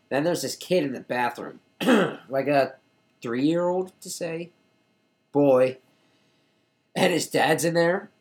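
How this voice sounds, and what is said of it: Voice giving out, strained. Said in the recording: “I'm losing my voice. ... I knew I was losing it.”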